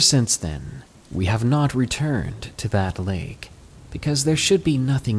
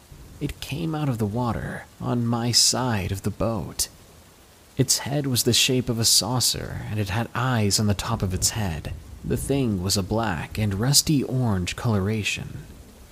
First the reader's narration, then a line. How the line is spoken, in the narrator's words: Shakily, replied